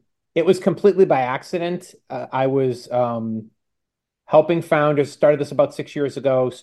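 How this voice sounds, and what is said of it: Usual voice. Nothing is said of it.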